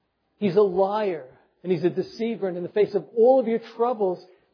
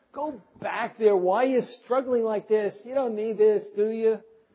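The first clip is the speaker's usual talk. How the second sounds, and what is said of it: Put-on Jewish accent. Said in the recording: “I guess he has a Jewish accent.”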